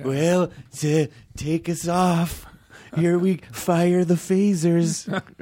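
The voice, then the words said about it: Poor Ronald Reagan impression. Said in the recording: “Is that a good Reagan impersonation? ... No. ... Not even.”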